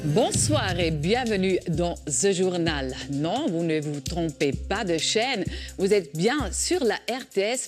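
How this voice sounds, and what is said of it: French with Swiss-German accent. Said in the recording (French): “une édition confraternelle avec un accent suisse-allemand”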